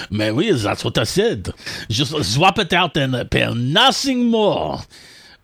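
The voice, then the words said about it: Deliberately bad French accent. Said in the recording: “use your really bad French accent”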